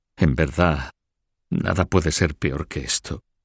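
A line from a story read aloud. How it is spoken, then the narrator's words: Murmured. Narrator (Spanish): murmuró Margarita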